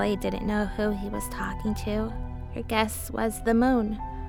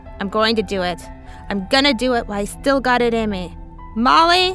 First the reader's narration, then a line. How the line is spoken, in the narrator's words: yelled